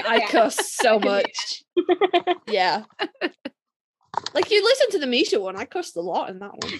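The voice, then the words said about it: British accent. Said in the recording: “British ... My accent nullifies all my terrible words.”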